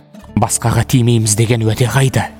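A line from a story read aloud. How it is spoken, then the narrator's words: Shouting. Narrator (Kazakh): деп айқайлайды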